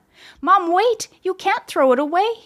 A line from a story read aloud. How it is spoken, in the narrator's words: cried